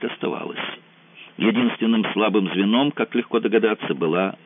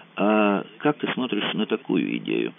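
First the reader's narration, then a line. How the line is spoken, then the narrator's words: Quiet. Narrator (Russian): сказал Мазур тихонько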